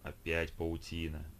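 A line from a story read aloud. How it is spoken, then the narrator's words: Grumble. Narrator (Russian): проворчал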